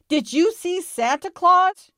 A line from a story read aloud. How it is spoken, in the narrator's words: She shouted